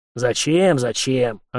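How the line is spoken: Snapped. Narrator (Russian): огрызнулся старший унтер

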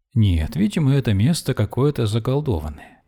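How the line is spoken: Cheerful speech. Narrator (Russian): весело говорила она

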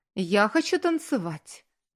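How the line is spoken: Forced cheerfulness. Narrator (Russian): Наигранно, весело сказала она

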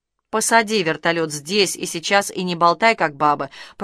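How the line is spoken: Growling bandit. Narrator (Russian): прорычал бандит

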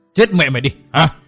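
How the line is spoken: Loud sharp shout. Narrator (Vietnamese): Lão giật giọng quát to một tiếng

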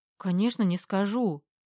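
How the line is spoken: Frightened breathy. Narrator (Russian): испуганно выдохнула Лиза

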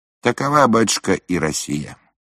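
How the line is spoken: Plain. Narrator (Russian): сказал Шатковский

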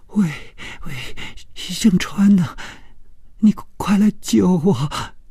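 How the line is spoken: Sobbing, terrified. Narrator (Chinese): 这声音充满了哭泣，并且非常的恐惧

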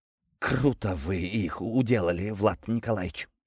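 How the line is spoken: Mumbling. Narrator (Russian): промямлил Гордей

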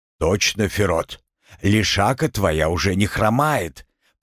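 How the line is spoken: Agreeing, wry snort. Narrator (Russian): поддержал Артема другой мужик, хмыкнул

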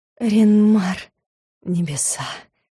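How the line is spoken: Hoarse whisper. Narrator (Russian): хрипло отозвался магистр, хриплого шепота

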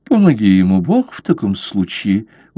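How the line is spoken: Gloomy mutter. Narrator (Russian): уныло пробормотал лорд

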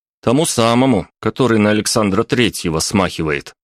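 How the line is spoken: Blurted out. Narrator (Russian): вырвалось у меня

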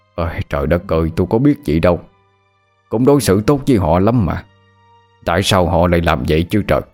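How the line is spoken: Sighing man. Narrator (Vietnamese): Chú nhà thở dài

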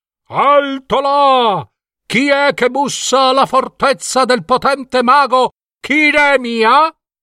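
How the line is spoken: Shouted challenge. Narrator (Italian): le guardie gridando

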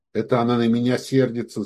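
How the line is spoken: Muttering. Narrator (Russian): забормотал он

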